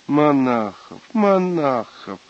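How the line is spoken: Sing-song repetition. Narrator (Russian): нараспев, повторяла она

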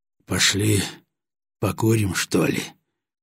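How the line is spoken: Gloomy. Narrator (Russian): мрачно произнес Батоныч

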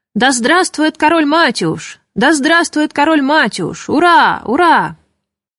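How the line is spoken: Loud crowd cheering. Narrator (Russian): Они громко кричали

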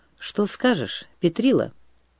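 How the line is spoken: Plain. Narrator (Russian): спросил боярин

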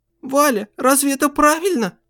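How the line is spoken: Trembling questioning voice. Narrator (Russian): по-прежнему дрожащим голосом спросила у него поэтесса

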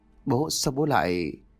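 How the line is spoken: Stammering. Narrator (Vietnamese): Long lắp bắp

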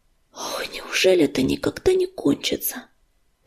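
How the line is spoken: Sad sighing whisper. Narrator (Russian): с тоскливым вздохом прошептал Огнезвезд

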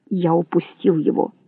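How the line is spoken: Gruff mutter. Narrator (Russian): буркнул он

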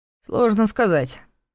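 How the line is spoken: Grumbling. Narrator (Russian): проворчал Ваня

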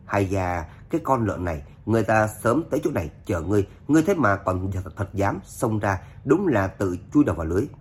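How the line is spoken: Crowd sighing. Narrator (Vietnamese): chúng nhân thở dài

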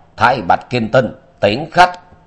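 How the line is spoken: Angry shout. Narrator (Vietnamese): Ngọc Hoàng Đại Đế tức giận quát

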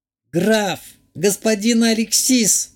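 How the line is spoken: Wailing in shock. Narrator (Russian): взвыла баронесса, осознав, где находится и что с ней произошло

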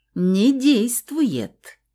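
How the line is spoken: Meaningful drawl, man. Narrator (Russian): Очень многозначительно протянул мужчина

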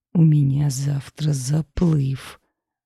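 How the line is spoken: Muttered through teeth. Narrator (Russian): снова процедил

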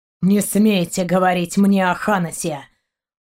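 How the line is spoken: Growling. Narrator (Russian): прорычал Шейн

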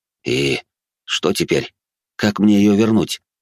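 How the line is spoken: Sigh, then quiet words. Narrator (Russian): Девушка вздохнула и негромко произнесла

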